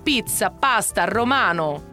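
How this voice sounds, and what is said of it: Fake Italian accent. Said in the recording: “a fake Italian accent”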